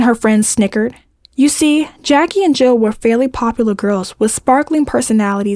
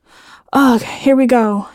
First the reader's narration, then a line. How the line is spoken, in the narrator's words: Jill groaned